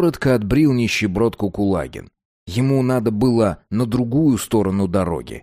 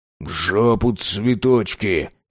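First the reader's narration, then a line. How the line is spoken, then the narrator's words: Grumbling. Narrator (Russian): бурчал Кулагин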